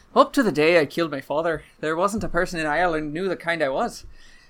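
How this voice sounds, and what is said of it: Put-on Irish accent. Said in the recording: “read this monologue in your best Irish accent”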